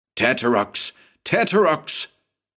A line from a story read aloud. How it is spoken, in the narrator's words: the investigator repeated, his voice raised now